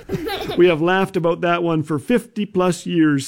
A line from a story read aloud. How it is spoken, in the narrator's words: says Jim